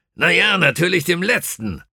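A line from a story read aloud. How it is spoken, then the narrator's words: Irritated call. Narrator (German): rief der Brigadier gereizt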